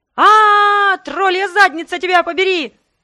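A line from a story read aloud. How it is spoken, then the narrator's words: Yelling. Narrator (Russian): заорала я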